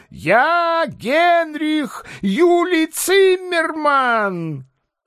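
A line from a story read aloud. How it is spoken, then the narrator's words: Confused shouting. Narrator (Russian): в его взбаламученной голове соскакивали какие-то рычажки, и он, путая, кричал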